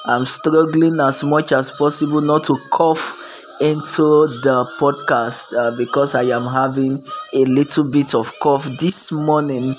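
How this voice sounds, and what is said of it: Sick, shaky voice. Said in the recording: “pardon my voice. My voice is a little bit under the weather ... you can hear the vibration in the voice”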